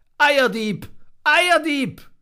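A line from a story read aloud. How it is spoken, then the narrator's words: Little monkey's angry loud shout. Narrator (German): weil das Herz des kleinen Affens so voll Zornes war, vergaß er alle Vorsicht und rief laut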